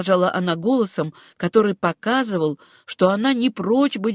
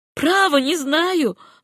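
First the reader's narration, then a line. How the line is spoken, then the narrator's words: Jubilant voice. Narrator (Russian): ответила она почему-то ликующим голосом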